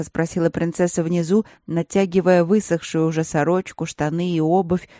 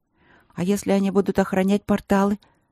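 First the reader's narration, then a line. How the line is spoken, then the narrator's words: Wavering voice. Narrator (Russian): дрогнувшим голосом проговорила пятая Рудлок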